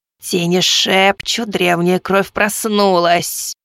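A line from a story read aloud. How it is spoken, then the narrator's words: Quavering rattling female voice. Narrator (Russian): дребезжащим голосом произнесла повелительница луналиких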